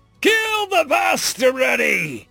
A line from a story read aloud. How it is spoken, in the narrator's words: he roared in his species tongue